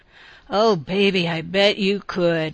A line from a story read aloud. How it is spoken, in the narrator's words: he sighed